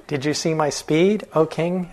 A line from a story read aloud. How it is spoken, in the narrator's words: asked the swan